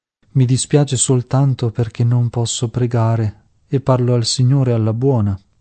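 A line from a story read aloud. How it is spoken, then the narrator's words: Sighing, coughing, breathless. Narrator (Italian): A ogni colpo di tosse, le mancava il respiro, sospirava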